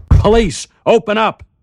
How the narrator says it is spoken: a voice shouting

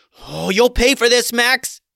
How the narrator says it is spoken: Gertrude yelled, seething with anger

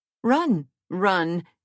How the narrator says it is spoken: exclaimed the queen

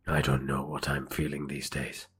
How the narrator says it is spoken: Prakash muttered

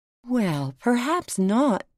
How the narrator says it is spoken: said Alice in a soothing tone

